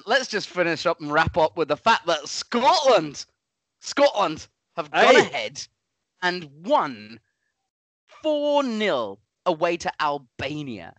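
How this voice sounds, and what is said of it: Put-on northern English accent. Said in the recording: “talking in a northern accent”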